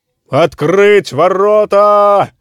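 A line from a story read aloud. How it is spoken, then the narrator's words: Several men shouting. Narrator (Russian): закричали сержанты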